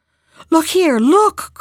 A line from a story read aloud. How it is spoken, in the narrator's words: cried the king